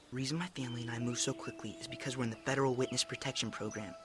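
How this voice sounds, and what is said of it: Quiet, hushed speech. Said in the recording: “I have to say this quietly.”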